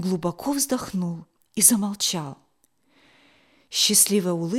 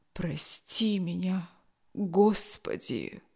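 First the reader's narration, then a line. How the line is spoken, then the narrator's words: Barely audible, old man. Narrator (Russian): Чуть слышно произнес старый моряк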